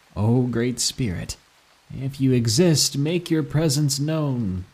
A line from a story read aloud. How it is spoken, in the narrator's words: Then I said sarcastically to the grave